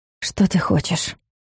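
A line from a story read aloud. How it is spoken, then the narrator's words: Barely audible breath. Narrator (Russian): выдохнула едва слышно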